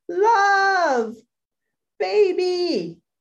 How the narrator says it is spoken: scream

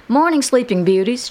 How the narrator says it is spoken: exclaimed

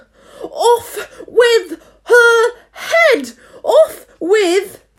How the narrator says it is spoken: The Queen turned crimson with fury ... began screaming

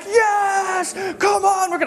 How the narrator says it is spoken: he shouts it out

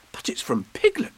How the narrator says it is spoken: cried Christopher Robin

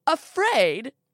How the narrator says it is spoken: She throws her head back and laughs

